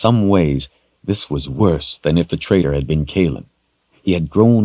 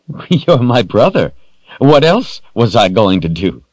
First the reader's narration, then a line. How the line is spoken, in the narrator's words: With the pain of betrayal burning hotly in him, Richard forced a warm smile